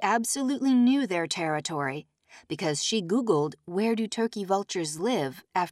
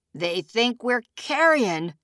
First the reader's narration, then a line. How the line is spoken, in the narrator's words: a man said, laughing at his own gallows joke